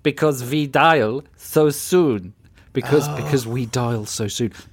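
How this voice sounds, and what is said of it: Aggressive put-on German accent. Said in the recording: “said in aggressive German accent ... I said it three times though in three different ways”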